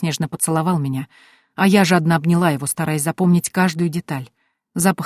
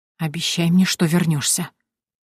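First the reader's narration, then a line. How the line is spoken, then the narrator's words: Whisper. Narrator (Russian): прошептала я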